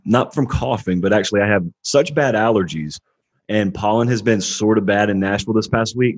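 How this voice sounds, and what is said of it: Slightly hoarse voice. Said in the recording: “if I sound hoarse, it's because I partially am ... it strains my vocal cords and I lose my voice”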